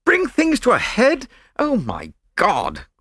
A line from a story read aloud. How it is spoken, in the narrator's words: cried Lord Yardley